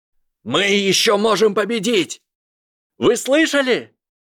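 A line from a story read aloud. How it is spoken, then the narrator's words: Yelling. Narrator (Russian): заорал Дин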